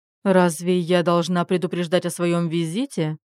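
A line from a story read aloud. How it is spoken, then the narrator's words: Surprised grumble. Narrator (Russian): удивилась она и проворчала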